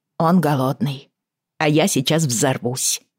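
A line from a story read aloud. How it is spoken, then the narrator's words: Said quietly. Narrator (Russian): тихо сказала Бриана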